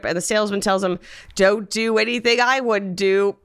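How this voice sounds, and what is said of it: Attempted Australian accent. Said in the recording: “I'll just do my accent ... I find the Australian accent to be difficult”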